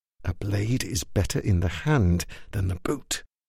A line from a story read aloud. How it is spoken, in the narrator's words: Aldo whispered